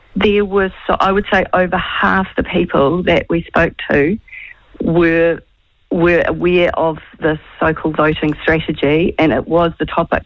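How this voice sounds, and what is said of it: Slightly croaky voice. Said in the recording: “my voice is a bit croaky.”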